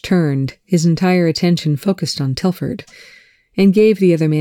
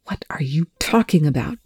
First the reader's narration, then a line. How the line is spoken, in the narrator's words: Telford hissed